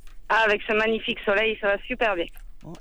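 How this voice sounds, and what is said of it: Southwestern French accent. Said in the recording (French): “ce petit accent sympathique comme tout ... Le sud-ouest de la France”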